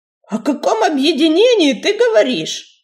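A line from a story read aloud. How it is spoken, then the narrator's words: Indignant snort, cat. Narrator (Russian): возмущенно фыркнул бредущий сзади бурый полосатый кот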